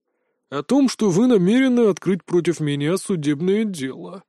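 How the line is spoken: Hostile grumble. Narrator (Russian): проворчал, не сдерживая неприязни

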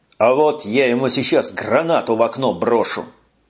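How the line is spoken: Growled. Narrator (Russian): прорычал Колян

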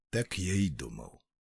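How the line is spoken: Muttering. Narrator (Russian): пробормотал Холмс

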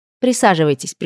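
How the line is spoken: Cold command. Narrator (Russian): приказала я холодно

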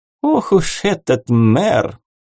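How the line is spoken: Giggle. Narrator (Russian): Соня хихикнула

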